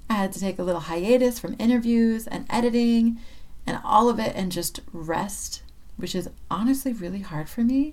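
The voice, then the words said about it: Hoarse, sick-sounding voice. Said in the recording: “my voice sounds a little bit like a horse, it's because I got really sick”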